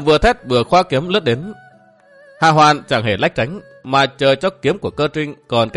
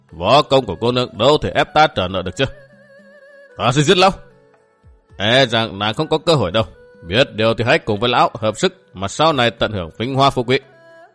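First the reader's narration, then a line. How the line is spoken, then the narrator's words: Sneering. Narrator (Vietnamese): Hà Hoàn cười khẩy nhún vai nói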